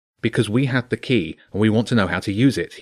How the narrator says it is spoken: he said quickly

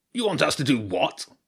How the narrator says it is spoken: growled the king under the fort

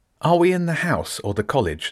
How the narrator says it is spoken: Nick asked

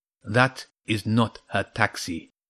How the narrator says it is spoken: it said in a soft Persian accent

